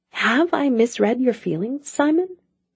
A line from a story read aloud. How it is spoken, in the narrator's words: She asked softly